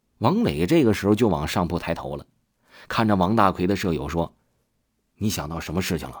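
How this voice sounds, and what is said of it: Usual voice. Nothing is said of it.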